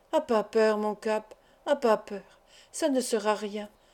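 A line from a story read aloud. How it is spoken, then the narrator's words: Murmured. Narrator (French): murmura Pointe-Pescade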